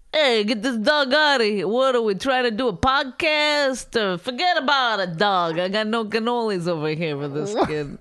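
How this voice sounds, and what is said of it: Exaggerated put-on New Jersey accent. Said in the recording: “Is that a good Jersey accent? Because I've been trying to do a Jersey accent. ... It sounds ridiculous.”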